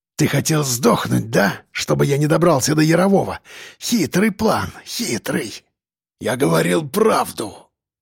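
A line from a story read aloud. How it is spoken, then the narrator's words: Hoarse rasp. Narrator (Russian): прохрипел Сальников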